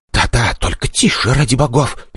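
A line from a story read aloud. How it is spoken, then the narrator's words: Whispering. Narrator (Russian): перейдя совсем на шепот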